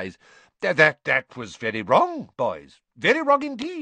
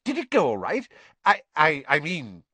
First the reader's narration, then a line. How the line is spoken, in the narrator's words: he faltered